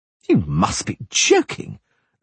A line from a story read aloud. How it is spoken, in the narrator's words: the poet said indignantly